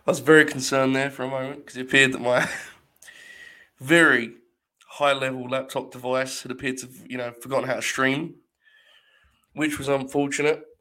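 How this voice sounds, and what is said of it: Slightly hoarse voice. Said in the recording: “my voice is not too bad. A little hoarse, traveling, a lot of sick people surrounding me on a plane, coughing, sneezing”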